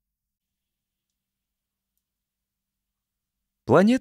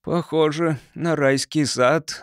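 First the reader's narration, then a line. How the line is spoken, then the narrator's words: Sigh. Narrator (Russian): вздохнул Гарри Луц после грехопадения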